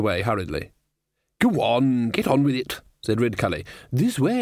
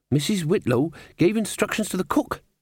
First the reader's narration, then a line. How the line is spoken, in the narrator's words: said Molly nervously